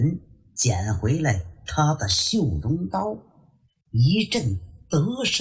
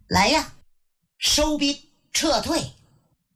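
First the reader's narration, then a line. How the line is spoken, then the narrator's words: Breathless shout. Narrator (Chinese): 浑身也见了汗了，跟着喊了一声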